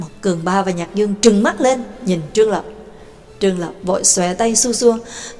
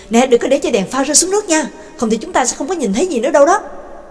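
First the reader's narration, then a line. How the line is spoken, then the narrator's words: Calling out. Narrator (Vietnamese): Nhạc Dương kêu lên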